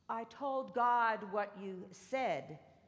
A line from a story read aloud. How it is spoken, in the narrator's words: she replied